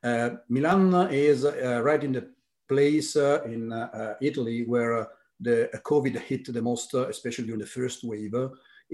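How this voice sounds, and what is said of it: Italian-American accent. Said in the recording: “You can pick my very Italian-American accent”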